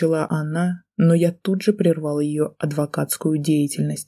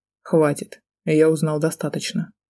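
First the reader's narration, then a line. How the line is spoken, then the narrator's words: Cold rebuke. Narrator (Russian): холодно осадил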